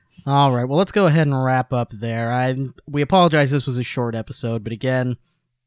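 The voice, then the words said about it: Strained, worn-out voice. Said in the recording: “my voice is shot.”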